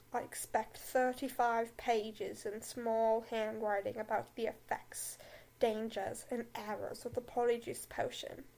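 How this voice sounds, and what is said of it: Deep, drawling British Snape impression. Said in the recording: “do a Snape voice? I'm gonna do a Snape voice ... I'm deeply British. Snape said in his deep, drawling voice.”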